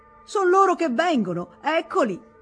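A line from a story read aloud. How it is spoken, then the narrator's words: Peasant shouting. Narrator (Italian): gridò il contadino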